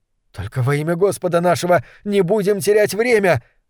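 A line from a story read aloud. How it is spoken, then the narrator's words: Young man pleading. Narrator (Russian): взмолился юноша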